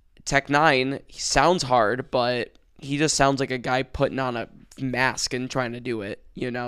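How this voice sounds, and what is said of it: Strained voice giving out. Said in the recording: “sorry about my voice kind of giving out”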